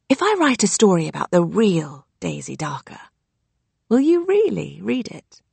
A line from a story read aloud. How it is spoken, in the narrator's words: I whispered